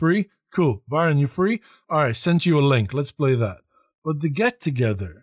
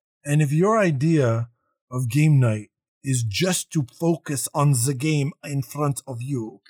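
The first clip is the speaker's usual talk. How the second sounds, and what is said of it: Put-on accent, stern Nazi-like character. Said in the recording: “Why do you use that accent? ... Because I feel like he's a Nazi.”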